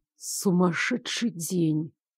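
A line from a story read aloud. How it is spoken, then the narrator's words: Muttered. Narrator (Russian): пробормотал Лоренс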